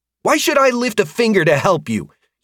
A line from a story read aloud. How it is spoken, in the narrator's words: He snapped back